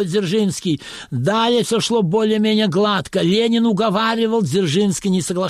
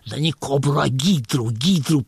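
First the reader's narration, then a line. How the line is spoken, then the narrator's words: Whispered. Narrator (Russian): прошептал Хуреев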